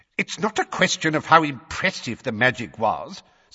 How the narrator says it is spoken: said Fudge in a testy voice

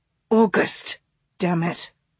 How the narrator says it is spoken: he whispered harshly

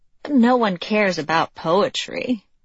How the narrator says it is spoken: Mal said with a rueful laugh

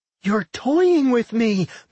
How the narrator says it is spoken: Milda whined, tears pouring down her face

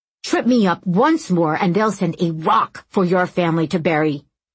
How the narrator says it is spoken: he shouted

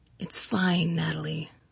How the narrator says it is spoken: he said softly

